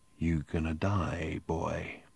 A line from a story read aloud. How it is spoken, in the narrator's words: the barman murmured quietly